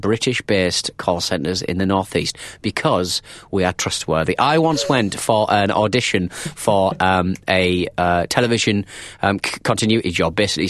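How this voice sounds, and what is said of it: Friendly northern English accent. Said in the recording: “got a stupid sounding accent ... northern accent that makes it so sound so friendly ... they say soothing ... my accent is so kind of”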